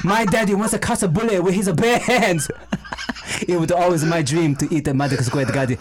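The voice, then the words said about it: Put-on Chinese accent. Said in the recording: “Chinese ... Just imitate Jackie Chan.”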